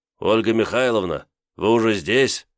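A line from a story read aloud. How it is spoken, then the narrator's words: Tiredly glad. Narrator (Russian): как-то устало обрадовался он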